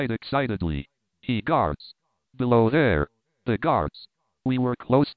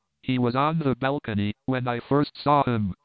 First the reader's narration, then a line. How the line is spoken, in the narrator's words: cried Horvastus